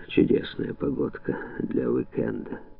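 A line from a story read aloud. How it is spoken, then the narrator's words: Grumbled. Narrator (Russian): буркнул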